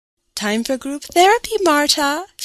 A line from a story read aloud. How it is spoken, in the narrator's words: told me in a cheery voice